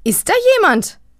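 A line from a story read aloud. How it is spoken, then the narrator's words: Calling toward hallway. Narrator (German): ruft Liesel Richtung Flur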